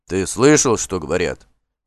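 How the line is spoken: Grumbling. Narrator (Russian): ворчал он

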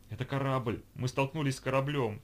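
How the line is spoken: Breathless exclamation. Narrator (Russian): тяжело дыша воскликнула Ольга

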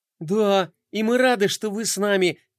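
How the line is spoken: Joyful, smiling. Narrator (Russian): радостно заулыбалась скейтбордистка

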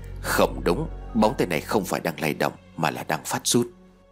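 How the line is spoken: Quiet, low voice. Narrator (Vietnamese): chú Trung Niên nhỏ giọng nói

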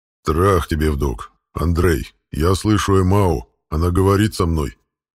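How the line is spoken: Creature growling. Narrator (Russian): прорычал дракот

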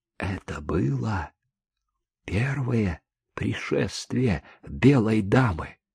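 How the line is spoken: Whispering. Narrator (Russian): Тут Чика перешел на шепот

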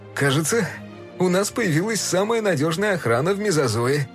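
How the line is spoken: Laughing man. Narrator (Russian): рассмеялся он

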